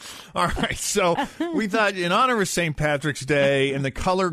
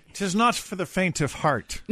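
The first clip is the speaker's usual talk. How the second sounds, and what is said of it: Put-on Irish accent. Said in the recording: “that would sound great in an Irish accent ... You're so good at it, though.”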